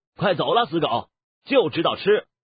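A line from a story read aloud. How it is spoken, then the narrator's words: Loud. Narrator (Chinese): 张小凡……大声说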